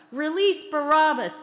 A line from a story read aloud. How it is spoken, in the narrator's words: they shouted